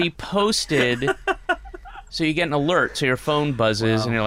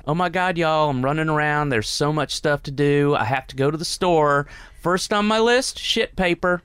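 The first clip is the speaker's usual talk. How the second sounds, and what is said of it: Put-on redneck Southern US accent. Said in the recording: “total redneck southern accent, so I'll do it in her voice”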